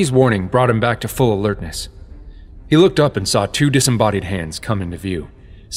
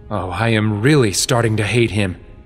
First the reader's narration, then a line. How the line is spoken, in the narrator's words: Sheik snarled, the first sign of anger